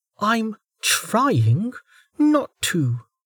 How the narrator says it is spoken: Velika said through her teeth

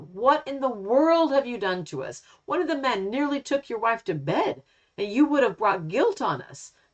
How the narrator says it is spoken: Then Abimelech exclaimed

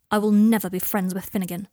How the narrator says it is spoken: said Draco sharply

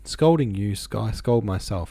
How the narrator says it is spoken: Ivan laughed again

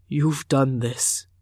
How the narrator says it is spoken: he said hoarsely

